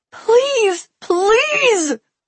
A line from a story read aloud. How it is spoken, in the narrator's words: I wailed